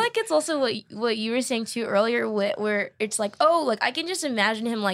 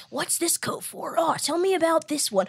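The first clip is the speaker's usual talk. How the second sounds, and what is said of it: Keanu Reeves impression. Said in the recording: “That's not a bad Keanu Reeves impression.”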